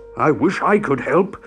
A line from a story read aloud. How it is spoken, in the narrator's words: boomed Jumbo